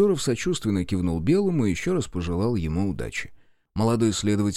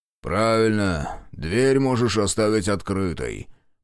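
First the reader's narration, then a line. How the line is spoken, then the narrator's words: Grumble. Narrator (Russian): проворчал Рудской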